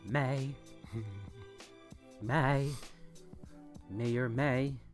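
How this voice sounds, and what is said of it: Imitates another person's voice. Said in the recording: “my impression of Justin Timberlake”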